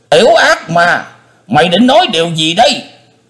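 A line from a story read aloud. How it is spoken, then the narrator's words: Beastly roar. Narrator (Vietnamese): Tứ Hải Thiên Dương gầm như thú dữ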